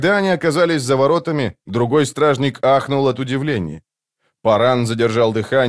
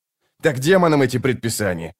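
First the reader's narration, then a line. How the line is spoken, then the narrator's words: Snapping retort. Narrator (Russian): огрызнулся его товарищ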